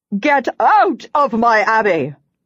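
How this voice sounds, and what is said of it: Woman shouting angrily. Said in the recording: “she's shouting.”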